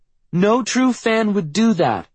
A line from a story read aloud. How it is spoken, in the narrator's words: Meredith yells